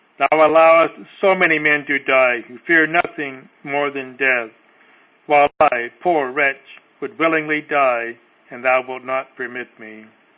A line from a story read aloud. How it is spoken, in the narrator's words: cried out at last